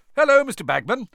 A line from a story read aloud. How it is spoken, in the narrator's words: said Fred brightly